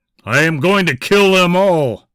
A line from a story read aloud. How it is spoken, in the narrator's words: shouted Charles